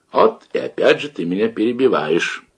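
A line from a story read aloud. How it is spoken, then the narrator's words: Sad old man's reply. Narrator (Russian): грустно отвечал ему дед Щукарь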